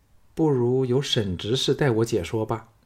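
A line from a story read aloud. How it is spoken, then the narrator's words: Cool, detached. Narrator (Chinese): 凤飞 淡淡的说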